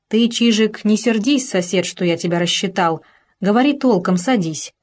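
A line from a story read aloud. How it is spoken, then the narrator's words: Plain. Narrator (Russian): сказал хозяин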